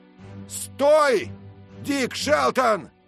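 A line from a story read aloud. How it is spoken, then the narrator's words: Man shouting from afar. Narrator (Russian): крикнул человек на острове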